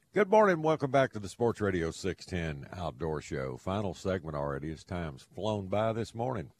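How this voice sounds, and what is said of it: Southern drawl. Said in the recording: “Got a little southern drawl in my tongue.”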